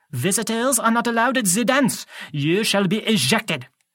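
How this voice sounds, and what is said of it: French-sounding accent. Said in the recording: “He had an accent, French maybe? He pronounced his J like in Jacques.”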